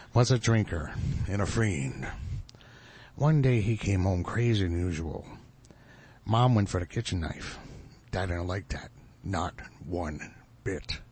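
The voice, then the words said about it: Impression of the Joker's voice. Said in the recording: “I did his impression.”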